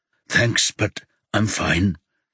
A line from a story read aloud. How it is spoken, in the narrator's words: Yuna mutters